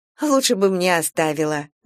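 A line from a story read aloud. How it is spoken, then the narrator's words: Laughing mother. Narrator (Russian): засмеялась мама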